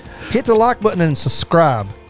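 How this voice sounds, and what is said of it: Put-on accent. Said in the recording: “Don't know what that accent came from.”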